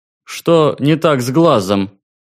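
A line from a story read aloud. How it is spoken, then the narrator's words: Loud question. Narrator (Russian): громко спросил проходящий мимо зап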